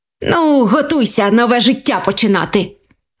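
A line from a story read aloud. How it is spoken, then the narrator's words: Happy exclamation. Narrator (Ukrainian): Вигукнув щасливий заєць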